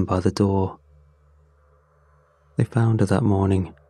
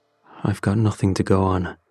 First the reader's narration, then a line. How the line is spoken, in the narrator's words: said solemnly